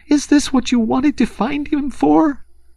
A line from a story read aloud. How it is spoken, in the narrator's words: she sobbed despairingly